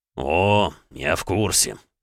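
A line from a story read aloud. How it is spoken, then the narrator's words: Through gritted teeth. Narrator (Russian): процедил Александр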